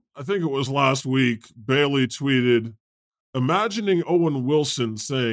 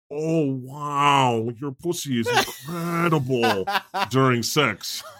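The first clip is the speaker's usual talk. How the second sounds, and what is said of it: Imitates another person's voice. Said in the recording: “That's a pretty good impression. ... That's really good. That's really good.”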